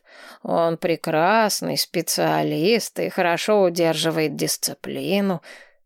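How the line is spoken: Grumbling. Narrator (Russian): проворчал наставник Тормен

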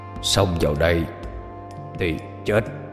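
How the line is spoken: Deep gruff voice. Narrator (Vietnamese): Hắn cất cái giọng ồm ồm

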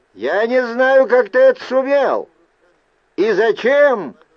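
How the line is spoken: Strained attempted shout. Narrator (Russian): силился выкрикнуть я

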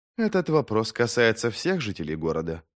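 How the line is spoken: Calm reply. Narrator (Russian): спокойно ответила Эйдар

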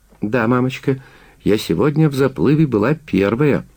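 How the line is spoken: Cheerful girl. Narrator (Russian): весело запрыгала девочка

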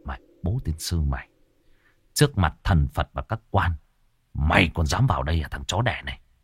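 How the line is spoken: Muttered cursing, choked anger. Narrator (Vietnamese): tức ngực như đá đè, cậu lẩm bẩm chửi

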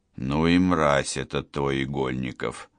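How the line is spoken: Through gritted teeth. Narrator (Russian): сквозь зубы процедил он

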